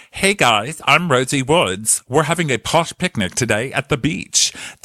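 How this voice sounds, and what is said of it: Imitated TV presenter news voice. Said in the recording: “puts on her news voice”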